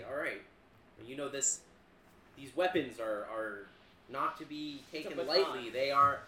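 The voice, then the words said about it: Stern put-on dad voice. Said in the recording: “I'm gonna put on my best, you know... Dad voice? ... best dad ... voice ... You're channeling your dad.”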